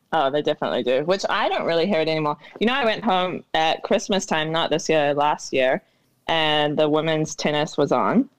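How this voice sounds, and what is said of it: New Zealand accent, partly Americanized. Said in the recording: “there's still a bit of Kiwiism in your accent, but it's been Americanified ... Do the Americans still hear a Kiwi accent”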